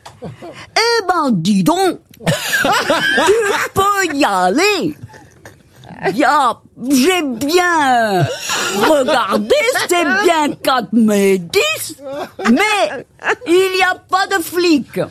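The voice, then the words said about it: Very poor put-on Belgian accent. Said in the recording (French): “j'ai jamais vu quelqu'un faire aussi mal un accent belge”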